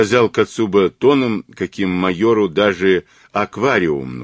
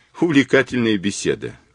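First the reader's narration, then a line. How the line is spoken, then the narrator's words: Wry snort. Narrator (Russian): хмыкнул Кацуба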